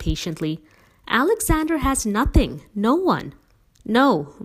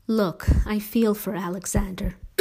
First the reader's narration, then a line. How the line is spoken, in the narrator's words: Mom said wearily